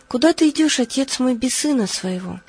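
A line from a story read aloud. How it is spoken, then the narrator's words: Tearful young man's cry. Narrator (Russian): молодой человек и воскликнул со слезами на глазах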